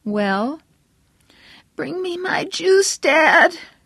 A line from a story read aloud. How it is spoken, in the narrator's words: his mother cried hoarsely